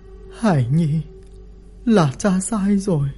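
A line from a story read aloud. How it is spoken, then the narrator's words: Sigh. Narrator (Vietnamese): Lý Mặt Dỗ thở dài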